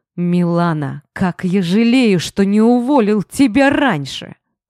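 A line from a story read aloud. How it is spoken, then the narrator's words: Angry growl. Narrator (Russian): зло прорычал я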